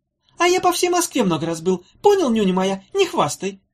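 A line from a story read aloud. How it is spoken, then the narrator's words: Squeaky, competitive. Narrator (Russian): запищал Хнык, не желавший оставаться в тени собрата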